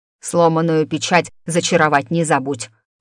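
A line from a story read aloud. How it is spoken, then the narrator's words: Old woman grumbling. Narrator (Russian): проворчала бабуля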